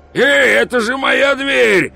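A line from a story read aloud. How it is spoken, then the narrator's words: Yelled. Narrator (Russian): завопил Пузан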